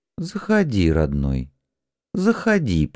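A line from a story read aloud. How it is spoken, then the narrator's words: Almost gentle invitation. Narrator (Russian): почти ласково пригласил я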